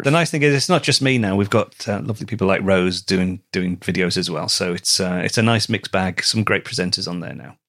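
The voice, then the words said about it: Liverpool English accent. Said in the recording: “the Liverpool accent sells it ... She loves your accent.”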